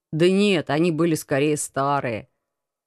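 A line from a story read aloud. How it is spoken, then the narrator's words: Embarrassed mumble. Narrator (Russian): Смущенно пробормотал командор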